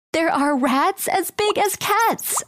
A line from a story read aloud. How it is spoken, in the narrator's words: I screamed